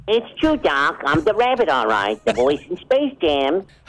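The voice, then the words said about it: Bugs Bunny cartoon character voice. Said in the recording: “the voice of Bugs Bunny ... you can do the voices”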